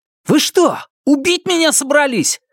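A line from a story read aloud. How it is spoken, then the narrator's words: Yelling. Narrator (Russian): заорал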